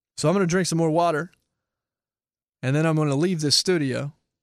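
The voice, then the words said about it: Hoarse, worn-out voice. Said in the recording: “my voice is shot”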